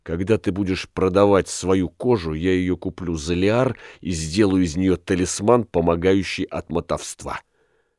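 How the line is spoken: Affirming innkeeper. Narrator (Russian): подтвердил хозяин

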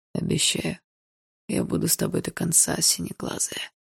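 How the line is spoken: Hoarse, intimate. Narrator (Russian): хрипло сказал Барс

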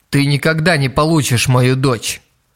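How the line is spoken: Cold repetition. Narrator (Russian): Холодно, повторил Ицуки Кураганы

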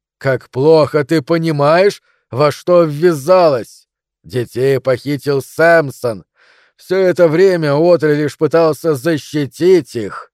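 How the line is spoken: Monstrous roaring laughter. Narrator (Russian): И чудище расхохоталось

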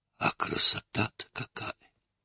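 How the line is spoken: Whispered. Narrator (Russian): прошептал он

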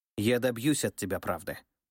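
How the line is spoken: Promising. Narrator (Russian): пообещала государыня

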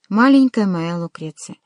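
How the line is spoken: Calm. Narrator (Russian): спокойно сказал он

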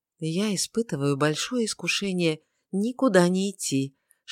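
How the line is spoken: Whispered in ear. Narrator (Russian): шепнул Филипп девушке на ухо

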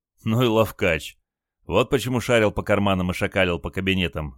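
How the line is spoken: Laughing grandson. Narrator (Russian): засмеялся внук

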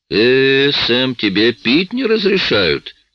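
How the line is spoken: Mocking. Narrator (Russian): насмешливо прищурился Фред

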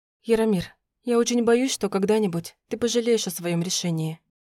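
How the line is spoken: Quiet speech. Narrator (Russian): тихо сказала я

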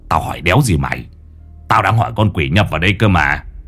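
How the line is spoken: Grumbling. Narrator (Vietnamese): Lão Năm cằn nhằn

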